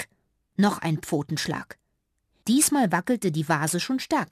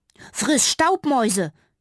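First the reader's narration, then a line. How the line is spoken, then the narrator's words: Call. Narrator (German): rief Fitti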